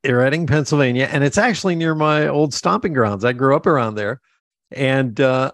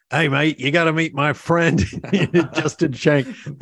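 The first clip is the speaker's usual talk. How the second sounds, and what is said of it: Imitates another person's voice. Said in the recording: “That is the worst impersonation of Dove ... I thought it was pretty good. I thought Dove joined the call real quick.”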